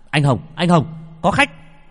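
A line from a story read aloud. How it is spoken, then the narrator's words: Calling out. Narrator (Vietnamese): Bằng la lên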